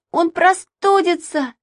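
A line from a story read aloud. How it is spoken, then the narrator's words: Shriek. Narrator (Russian): завизжал Саша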